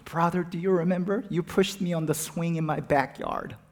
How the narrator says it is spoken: she's sobbing

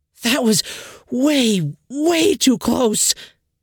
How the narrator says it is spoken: Helga screamed

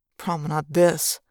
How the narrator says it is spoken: muttered darkly

